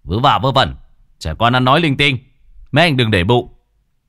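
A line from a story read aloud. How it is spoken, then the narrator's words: Sharp scolding shout. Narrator (Vietnamese): người dẫn đường ngồi đằng trước quát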